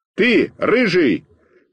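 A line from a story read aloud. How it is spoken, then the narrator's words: Shout. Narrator (Russian): крикнул я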